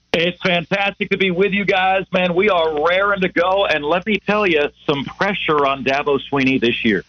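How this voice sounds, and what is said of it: Polished professional radio announcer voice. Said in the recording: “he's got a good radio voice”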